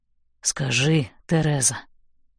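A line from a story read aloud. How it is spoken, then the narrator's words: Mumbling. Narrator (Russian): бормочет он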